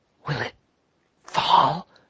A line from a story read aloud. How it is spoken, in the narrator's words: whispered the lobbyist